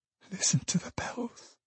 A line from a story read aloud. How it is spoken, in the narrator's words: whispered Trotty